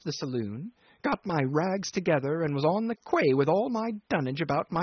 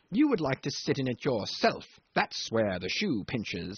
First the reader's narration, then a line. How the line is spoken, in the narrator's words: he sneers